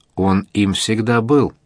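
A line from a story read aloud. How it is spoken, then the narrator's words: Plain. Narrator (Russian): ответил Овидий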